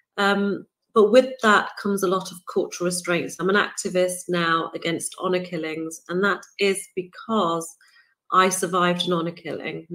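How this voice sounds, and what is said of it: British accent. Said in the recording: “I'm born and raised in the United Kingdom, if my accent hasn't given it away”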